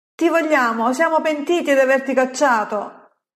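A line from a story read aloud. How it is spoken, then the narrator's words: Group shouting. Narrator (Italian): urlano quelli di Jabes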